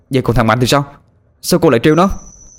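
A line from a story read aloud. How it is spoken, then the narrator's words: Almost shouting. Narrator (Vietnamese): Tôi gần như hét lên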